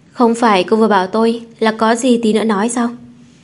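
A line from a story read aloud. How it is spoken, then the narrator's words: Innocent smiling tone. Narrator (Vietnamese): Trần Lãng mỉm cười vẻ vô tội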